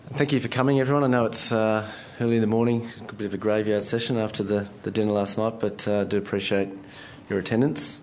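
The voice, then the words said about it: Croaky voice. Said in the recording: “my voice is a little bit croaky”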